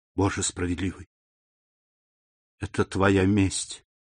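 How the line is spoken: Whisper. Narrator (Russian): прошептала госпожа Данглар

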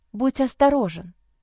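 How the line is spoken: Whisper. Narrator (Russian): Прошептала

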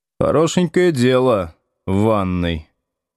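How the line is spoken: Gloomy mutter. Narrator (Russian): мрачно пробормотал Слушкин

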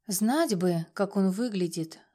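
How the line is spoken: Sigh. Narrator (Russian): вздохнула я

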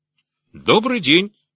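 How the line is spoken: Cheerful shout over barking. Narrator (Russian): весело крикнула она сквозь собачий лай

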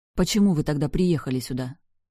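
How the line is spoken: Grumbling mutter. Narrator (Russian): буркнула я

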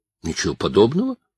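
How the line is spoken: Unconvincing exclamation. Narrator (Russian): воскликнул Марк, но так, что лишь со всей очевидностью подтвердил правоту слов сестры

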